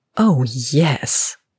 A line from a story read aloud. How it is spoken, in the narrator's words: Andy growled